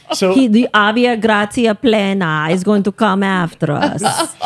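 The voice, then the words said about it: Bad put-on Italian accent. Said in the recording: “accent? ... It's supposed to be my bad Italian accent.”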